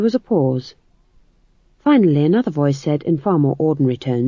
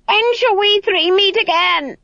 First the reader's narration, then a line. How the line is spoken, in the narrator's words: an eldritch voice shrieked